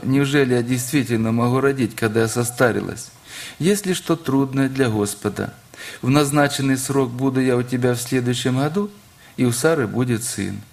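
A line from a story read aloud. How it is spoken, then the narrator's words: Laughing. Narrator (Russian): Отчего-то рассмеялась Сара, сказав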